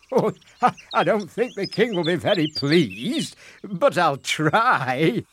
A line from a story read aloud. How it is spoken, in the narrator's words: laughed the fisherman in reply